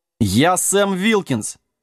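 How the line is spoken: Offended roar of dog. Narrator (Russian): обиженно взревел пес

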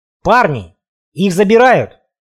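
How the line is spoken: Sudden realization shout. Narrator (Russian): озаренно крикнул, осознанно

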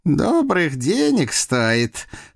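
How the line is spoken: Muffled snort. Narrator (Russian): хмыкнул в усы Прохор

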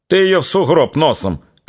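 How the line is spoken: Shouting. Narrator (Russian): кричал Петро

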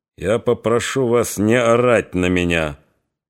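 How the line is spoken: Dull, muffled voice. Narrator (Russian): глухо сказал Григорий

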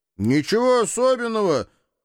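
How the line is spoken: Deafening yell. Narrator (Russian): Сильвия заорала так, что даже стражники отшатнулись

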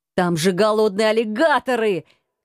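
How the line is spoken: Shouted. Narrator (Russian): кричал

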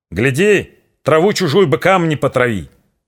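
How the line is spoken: Shouted after someone, father. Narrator (Russian): Вслед ему крикнул отец

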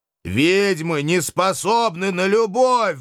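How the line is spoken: Howled. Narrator (Russian): взвыл я

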